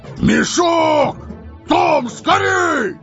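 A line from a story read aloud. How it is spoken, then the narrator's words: Yelling in unison. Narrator (Russian): Берт и Билл в один голос завопили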